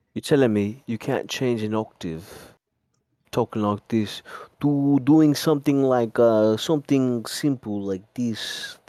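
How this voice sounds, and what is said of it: Hybrid Italian-Russian put-on accent. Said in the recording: “This is my Italian-Russian accent, you know? It's a bit of a hybrid. I created it. ... You sound like Gru.”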